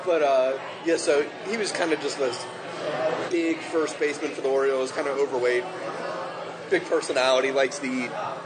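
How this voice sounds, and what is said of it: Baltimore accent. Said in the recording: “My Baltimore accent, you're trying to decipher... you're making it all one syllable.”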